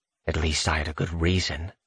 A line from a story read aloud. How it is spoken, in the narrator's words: I mutter